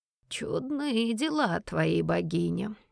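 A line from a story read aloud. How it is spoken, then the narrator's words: Drawled. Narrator (Russian): протянул лорд Ричард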